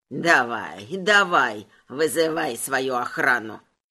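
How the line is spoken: Nervous creaky leprechaun voice. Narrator (Russian): Нервно проскрипел лепрекон

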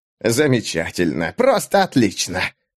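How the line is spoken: Hissed. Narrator (Russian): прошипел Бен

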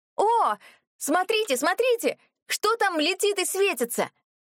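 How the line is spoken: Shouted. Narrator (Russian): закричала

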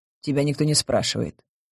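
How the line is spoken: Curt, dry. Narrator (Russian): сухо рубанул Рейгард

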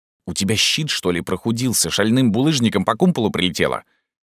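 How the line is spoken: Hissing. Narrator (Russian): прошипел Джастин

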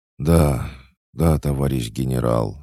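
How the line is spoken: Breathless reply. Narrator (Russian): выдохнул парень

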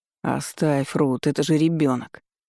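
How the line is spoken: Weary young man. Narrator (Russian): устало ответил высокий светловолосый парень

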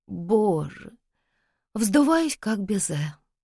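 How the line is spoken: Moaning. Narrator (Russian): простонала Оксана

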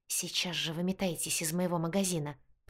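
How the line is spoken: Angry hiss. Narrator (Russian): прошипела она

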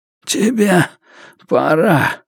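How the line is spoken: Hoarse. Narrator (Russian): просипел он

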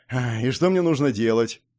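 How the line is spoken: Sad sigh. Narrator (Russian): вздохнул я печально

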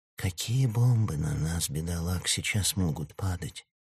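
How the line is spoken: Quiet whisper. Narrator (Russian): тихо шептал Слава Роману Любуеву

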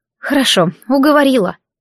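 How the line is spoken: Sigh. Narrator (Russian): вздохнула я

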